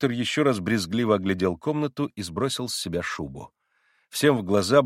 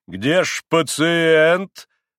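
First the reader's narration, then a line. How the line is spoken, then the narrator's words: Loud, insistent question. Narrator (Russian): спросил он громко и настоятельно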